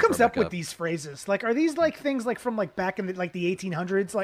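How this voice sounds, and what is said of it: Usual voice. Nothing is said of it.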